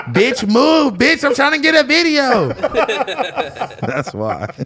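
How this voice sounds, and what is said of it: Imitates another person's voice. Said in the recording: “you do that voice too good”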